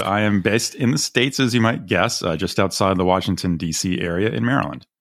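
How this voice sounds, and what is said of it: American accent, not British. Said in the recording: “that's not a British accent”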